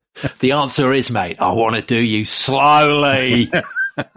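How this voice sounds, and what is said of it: Put-on Australian accent. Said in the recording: “You're very good at this. I shall defer to you on the Australian insult impersonation.”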